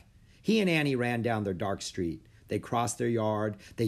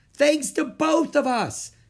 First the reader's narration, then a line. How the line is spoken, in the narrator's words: shouted Annie